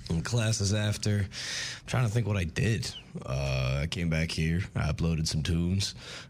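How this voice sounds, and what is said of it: Worn, strained voice. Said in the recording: “my voice sounds worse today ... I just could not sing for the life of me.”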